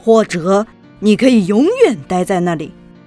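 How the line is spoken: Stern shout. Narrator (Chinese): 校长先生严厉地喊道

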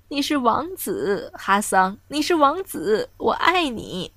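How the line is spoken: Friendly, smiling. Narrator (Chinese): 微笑着说

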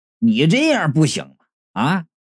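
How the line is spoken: Angry. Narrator (Chinese): 我是怒从中来呀，然后就说道

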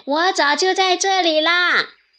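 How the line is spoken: Calling out. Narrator (Chinese): 刺猬的妻子叫道

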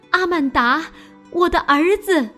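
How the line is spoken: Wailing, sobbing. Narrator (Chinese): 大哭起来

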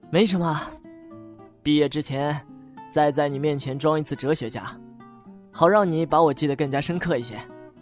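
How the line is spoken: Knowing smile. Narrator (Chinese): 老周带着深邃的笑意说

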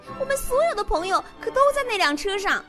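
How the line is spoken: Hysterical scream. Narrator (Chinese): 猫咪歇斯底里的大叫

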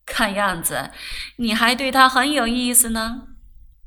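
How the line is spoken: Laughing. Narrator (Chinese): 菊孙笑道

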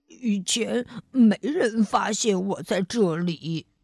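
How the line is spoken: Monster mumbling. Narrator (Chinese): 绿毛怪嘟囔着

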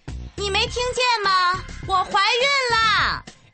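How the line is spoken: Voice rising much higher. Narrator (Chinese): 布丁的声音又提高了八度

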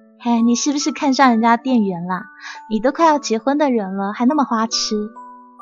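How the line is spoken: Teasing, laughing. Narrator (Chinese): C 小姐笑他说

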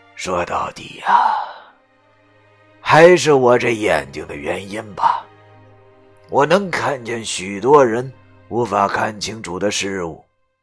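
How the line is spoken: Sighing. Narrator (Chinese): 袁大叔叹了口气，然后对他说道

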